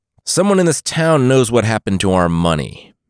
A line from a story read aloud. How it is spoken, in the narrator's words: the leader called out